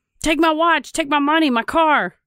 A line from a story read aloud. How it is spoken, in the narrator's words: Believing he was being carjacked, Schiller yelled at the men